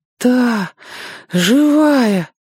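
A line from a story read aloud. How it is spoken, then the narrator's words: Breathless sobbing. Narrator (Russian): выдохнул Сёга и всхлипнул опять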